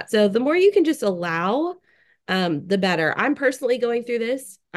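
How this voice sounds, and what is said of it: Scratchy, strange voice. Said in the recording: “I'm sure you can hear it in my voice. ... my scratchy, strange voice”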